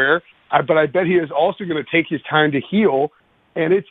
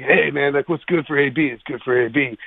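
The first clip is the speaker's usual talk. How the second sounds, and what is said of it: Antonio Brown impression. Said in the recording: “I'm going to do my best AB impression because he's got the smokiest.”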